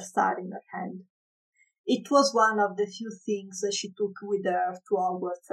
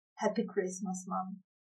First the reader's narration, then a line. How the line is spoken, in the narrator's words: whispered, so soft she was sure not even Molly could hear